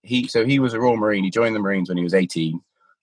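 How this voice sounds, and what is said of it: Posh English Gloucestershire accent. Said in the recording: “posh ginger-haired Englishman ... my accent yo-yos between Gloucestershire and maybe pompous arsehole Cheltenham”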